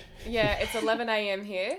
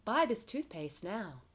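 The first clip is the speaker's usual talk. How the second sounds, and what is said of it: Exaggerated American commercial voice. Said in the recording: “It's very American, very North American. ... It's also my commercial accent”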